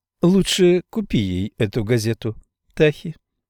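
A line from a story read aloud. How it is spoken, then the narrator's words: Giggling advice. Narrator (Russian): хихикнув, посоветовала сестричка слева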